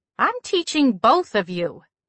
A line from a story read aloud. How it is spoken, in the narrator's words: said firmly